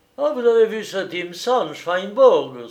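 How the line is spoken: Exclaimed. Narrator (French): s'écria-t-il

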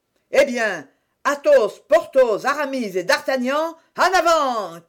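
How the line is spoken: Shouted. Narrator (French): cria Athos

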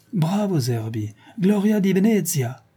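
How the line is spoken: Shout. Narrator (French): cria une voix

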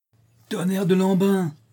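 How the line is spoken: Exclaimed. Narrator (French): s'écria Squelette

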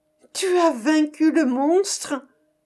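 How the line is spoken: Princess exclaiming. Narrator (French): s'écria la princesse

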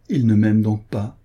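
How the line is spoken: Sigh. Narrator (French): soupira-t-elle

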